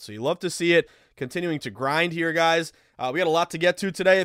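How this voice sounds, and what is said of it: Strained, slightly rough voice. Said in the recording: “I'm a little banged up. ... My voice sounds a little weird. ... your boy was screaming his lungs out”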